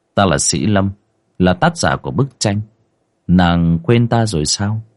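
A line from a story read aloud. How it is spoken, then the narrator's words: Soft laugh. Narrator (Vietnamese): Chàng trai khẽ cười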